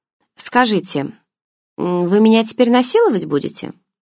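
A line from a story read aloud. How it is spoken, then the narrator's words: Blunt, matter-of-fact question. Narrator (Russian): Обыденным тоном в лоб поинтересовалась я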